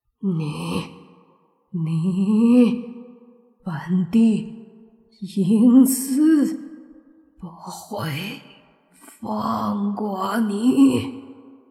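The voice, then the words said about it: Hoarse, rasping character voice. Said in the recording (Chinese): “沙哑的声音说”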